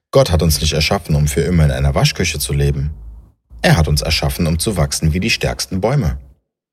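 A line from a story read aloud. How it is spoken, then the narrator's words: Warm voice. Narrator (German): sagte sie mit warmer Stimme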